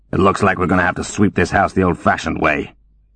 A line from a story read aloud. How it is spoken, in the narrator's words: he grumbled